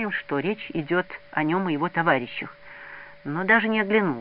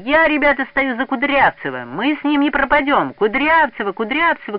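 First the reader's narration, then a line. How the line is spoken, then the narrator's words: Crowd shouting. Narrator (Russian): кричали новенькие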